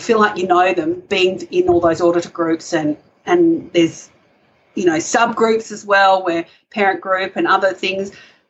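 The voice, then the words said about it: Australian accent. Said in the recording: “Even Australians are welcome. ... They all like our accent ... We love your accent.”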